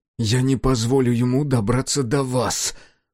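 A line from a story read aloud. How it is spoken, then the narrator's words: Growling. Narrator (Russian): прорычал Сега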